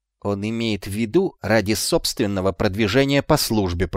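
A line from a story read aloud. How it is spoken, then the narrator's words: Hissing. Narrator (Russian): прошипел Шлис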